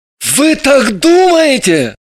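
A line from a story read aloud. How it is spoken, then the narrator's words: Exclaimed. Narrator (Russian): вскрикнул он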